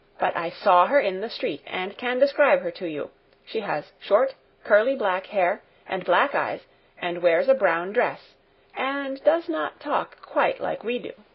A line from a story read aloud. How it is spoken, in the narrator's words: said in a determined voice